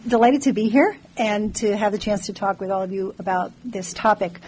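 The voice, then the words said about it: Slightly hoarse, strained voice. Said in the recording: “I'm getting over a little bit of laryngitis”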